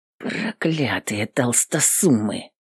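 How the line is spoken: Angry muttered whisper. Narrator (Russian): гневно шептала она сама себе под нос

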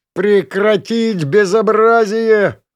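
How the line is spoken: Howling. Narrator (Russian): взвыл

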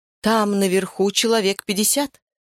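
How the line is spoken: Plain. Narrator (Russian): сказала Нура

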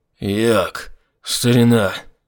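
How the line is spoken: Hoarse rasp. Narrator (Russian): Прохрипел наконец Айзек

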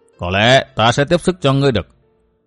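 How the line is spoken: Cold. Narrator (Vietnamese): Phỉ Nguyên Hoàng nói giọng lạnh lùng

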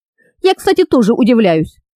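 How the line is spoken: Irritated reply. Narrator (Russian): раздраженно откликнулся Ангес

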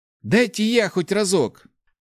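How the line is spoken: Exclaimed. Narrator (Russian): воскликнул Ларри

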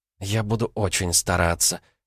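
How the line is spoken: Girl's whisper. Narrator (Russian): прошептала девушка

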